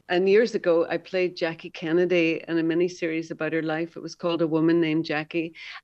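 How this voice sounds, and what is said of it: Softened Derry Irish accent. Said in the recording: “I can hear your Derry accent there. It's still there ... it's softened substantially”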